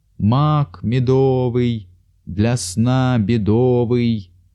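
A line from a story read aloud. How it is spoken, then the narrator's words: Old man's drawn-out chant. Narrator (Russian): Какой-то старик протяжно нараспев выкрикивал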